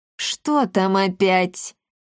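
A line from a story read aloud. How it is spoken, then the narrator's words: Irritated through gritted teeth, smiling. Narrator (Russian): не прекращая улыбаться, раздраженно процедил Всеволодор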